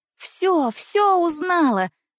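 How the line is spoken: Joyful. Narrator (Russian): говорю я радостно

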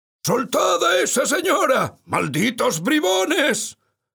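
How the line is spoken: Shouting. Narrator (Spanish): gritó

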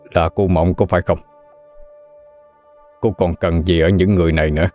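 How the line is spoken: Sudden loud laughter. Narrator (Vietnamese): Thiếm Hằng chợt ngửa mặt lên rồi cười lớn

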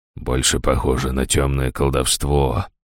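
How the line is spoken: Muttering. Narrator (Russian): пробормотал Ришнис

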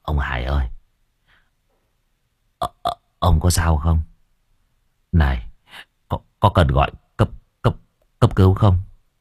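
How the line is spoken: Trembling worried. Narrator (Vietnamese): cậu Cẩn run run

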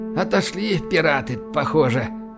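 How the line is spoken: Breathed out. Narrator (Russian): выдохнул Байкин

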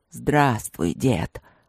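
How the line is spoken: Growling. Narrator (Russian): прорычал новоприбывший

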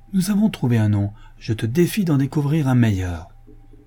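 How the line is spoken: Calling from afar. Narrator (French): s'écria Rebecca du plus loin qu'elle le vit

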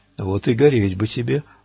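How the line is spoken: Gloomy inner thought. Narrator (Russian): мрачно подумал стрелок

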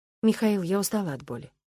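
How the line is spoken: Quiet. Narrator (Russian): сказала я тихо

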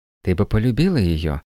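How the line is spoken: Gentle insistence. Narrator (Russian): мягко настаивал Клаус

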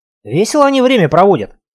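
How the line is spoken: Through gritted teeth. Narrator (Russian): процедил Серега

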